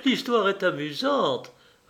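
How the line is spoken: Loud, laughing. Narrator (French): répondit Patricia, très haut en riant

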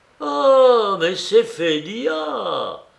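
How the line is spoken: Sudden cry from next room. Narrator (French): s'écria soudain Marfa Dmitrievna derrière la porte entrebâillée de la chambre voisine

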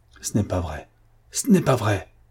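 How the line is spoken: Exclaiming. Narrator (French): s'exclama-t-il

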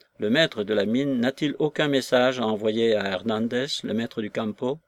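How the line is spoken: Plain question. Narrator (French): demanda-t-il

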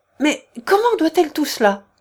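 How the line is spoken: Exclaimed. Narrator (French): s'écria-t-elle

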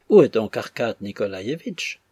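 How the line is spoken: Plain question. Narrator (French): demanda Madame Odintsov

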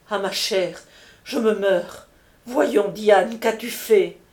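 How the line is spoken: Exclaiming, bursting into tears. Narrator (French): s'écria la comtesse, fondant en larmes

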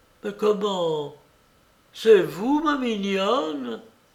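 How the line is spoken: Old woman exclaiming. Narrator (French): s'écria la vieille demoiselle

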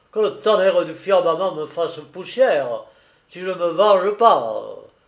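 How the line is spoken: Exclaimed. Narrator (French): s'écria-t-il

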